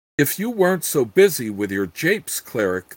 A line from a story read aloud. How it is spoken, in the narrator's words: the Grand Count said icily